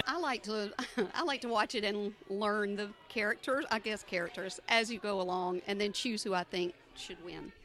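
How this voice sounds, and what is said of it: Southern US accent from Georgia. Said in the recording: “What is that accent? Where is that from? ... Atlanta, Georgia.”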